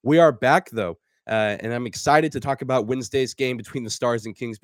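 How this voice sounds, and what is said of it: Slightly sore, strained voice. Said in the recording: “give my voice a little bit of rest, I can still hear a little bit of soreness in my throat”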